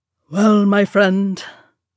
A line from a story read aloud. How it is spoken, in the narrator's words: Dwalin said gruffly